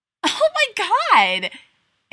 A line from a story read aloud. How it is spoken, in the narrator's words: squealed